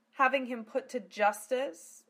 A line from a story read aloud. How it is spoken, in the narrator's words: Zelos chuckled evilly